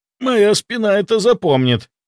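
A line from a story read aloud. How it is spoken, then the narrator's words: Groaning. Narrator (Russian): простонал Кирилл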